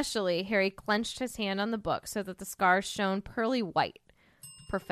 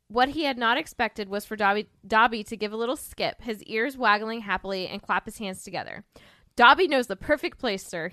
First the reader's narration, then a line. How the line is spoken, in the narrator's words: said happily